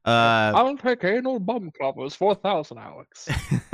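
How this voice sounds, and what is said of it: Bad imitation of another person's voice. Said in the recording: “Really, really bad Sean Connery impersonation.”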